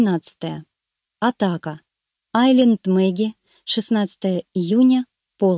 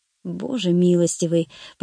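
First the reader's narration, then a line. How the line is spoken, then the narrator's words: Startled mutter. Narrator (Russian): пробормотал я, поскользнувшись и чуть не полетев со скалы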